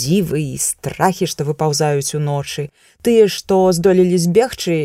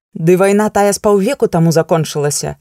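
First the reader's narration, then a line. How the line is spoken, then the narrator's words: Sharp. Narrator (Belarusian): рэзка сказала Эгла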